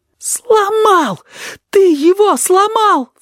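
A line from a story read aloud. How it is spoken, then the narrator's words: Sobbing. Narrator (Russian): всхлипнул кузнечик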